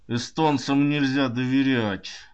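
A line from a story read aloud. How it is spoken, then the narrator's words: Muttered through clenched teeth. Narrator (Russian): Он якобы даже процедил сквозь зубы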